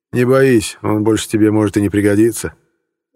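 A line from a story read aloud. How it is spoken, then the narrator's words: Optimistic grunting warden. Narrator (Russian): оптимистично хмыкнул надзиратель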